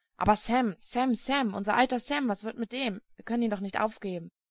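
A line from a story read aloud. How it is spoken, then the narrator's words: Helpless, annoyed muttering. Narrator (German): murmelte ratlos und ärgerlich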